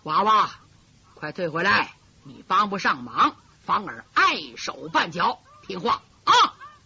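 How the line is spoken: Low voice. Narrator (Chinese): 紫面人低低声音说

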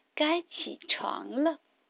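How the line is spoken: Soft voice. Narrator (Chinese): 巴蒂轻声说

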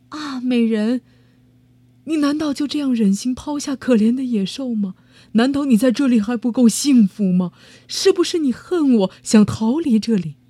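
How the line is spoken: Beast's mournful cry. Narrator (Chinese): 野兽露出了忧伤的表情，悲哀的喊道

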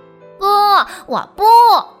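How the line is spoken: Loud. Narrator (Chinese): 大声的说

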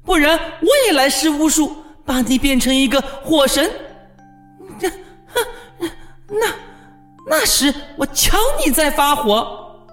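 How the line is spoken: Shouting. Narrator (Chinese): 霍库斯喊道

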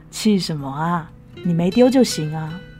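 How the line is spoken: Smiling. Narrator (Chinese): 他笑眯眯的

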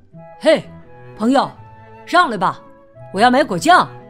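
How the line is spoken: Calling out. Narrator (Chinese): 小裁缝冲窗前喊道

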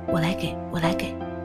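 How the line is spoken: Embarrassed, quiet, placating. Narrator (Chinese): 女人一脸通红的，小声的息事宁人

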